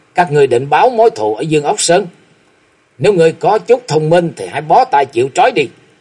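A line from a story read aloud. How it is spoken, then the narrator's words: Angry loud laughter. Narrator (Vietnamese): Thạch Mộng nổi giận bật cười ha hả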